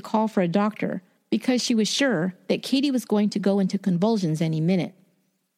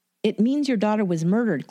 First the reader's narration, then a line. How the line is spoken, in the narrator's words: Clifton said